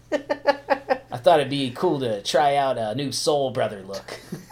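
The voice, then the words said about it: Imitates another person's voice. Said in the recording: “my Sean Penn impression”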